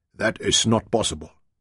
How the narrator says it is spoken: Henny mumbled

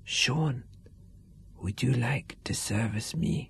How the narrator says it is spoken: Anna whispered

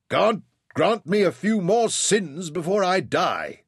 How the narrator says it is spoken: shouted back

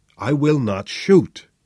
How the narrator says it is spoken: said Flynn

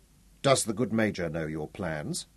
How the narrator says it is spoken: she asked quietly

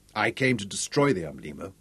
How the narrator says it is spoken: said

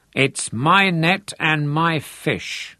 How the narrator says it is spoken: Lothar grunted at him

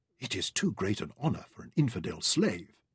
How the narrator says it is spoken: Al-Nur whispered enviously

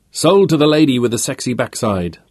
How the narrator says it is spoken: Peter shouted back

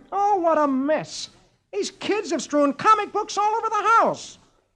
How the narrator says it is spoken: exclaims

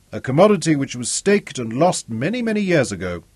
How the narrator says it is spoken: Zuga observed dryly

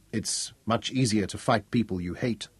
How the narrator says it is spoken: Mark said softly

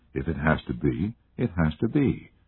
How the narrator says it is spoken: Sarah said quietly

